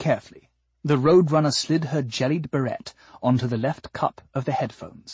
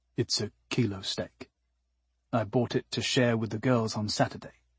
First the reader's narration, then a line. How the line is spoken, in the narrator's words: Ort had mumbled sheepishly